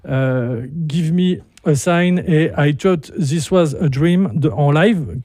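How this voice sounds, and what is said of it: Poor, French-accented English pronunciation. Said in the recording (French): “désolé pour mon accent pérave”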